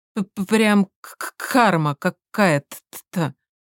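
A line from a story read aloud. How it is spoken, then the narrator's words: Nervous stammer. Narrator (Russian): стал чуть сильнее заикаться, как всегда, когда волновался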